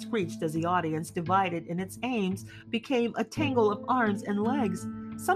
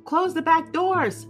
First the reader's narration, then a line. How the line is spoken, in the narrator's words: shouted Bert